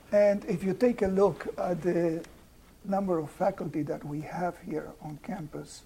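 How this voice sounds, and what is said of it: Slight foreign accent. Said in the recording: “you do denote a little accent, right?”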